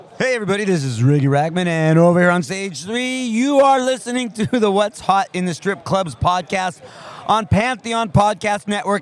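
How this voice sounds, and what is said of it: Strip club DJ announcer voice. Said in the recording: “let me do it as a strip club DJ voice”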